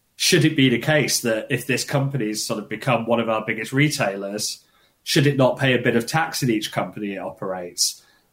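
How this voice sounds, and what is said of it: British accent. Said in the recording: “you can guess from my accent, I'm not ... Britain”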